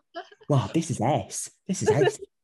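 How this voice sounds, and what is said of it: Imitates another person's voice. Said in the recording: “my Jodie Whittaker impression... That's really good.”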